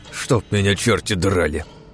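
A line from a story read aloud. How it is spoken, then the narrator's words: Cold suspicious hiss. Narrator (Russian): прошипел холодно Головин, чуя подвох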